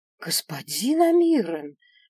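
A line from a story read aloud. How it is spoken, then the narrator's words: Indignant hiss. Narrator (Russian): возмущенно прошипела я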